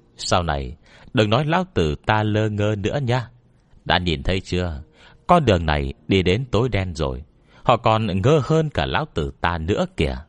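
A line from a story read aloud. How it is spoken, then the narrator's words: Loud laugh, then speaking. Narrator (Vietnamese): Bạch Vô Cầu cười lớn, sau đó tiếp tục nói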